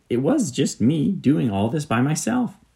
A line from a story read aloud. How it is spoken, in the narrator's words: exclaimed the fox